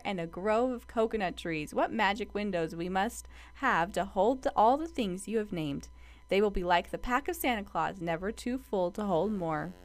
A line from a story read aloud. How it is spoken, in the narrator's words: laughed